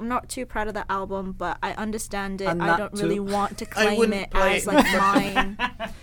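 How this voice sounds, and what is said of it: Subtle put-on British accent. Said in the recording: “very subtle, but very good accent ... go full Brit”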